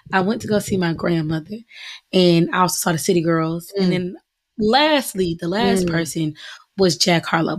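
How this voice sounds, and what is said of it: Slightly raspy, strained voice. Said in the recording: “my voice is a little raspy ... I lost my little voice”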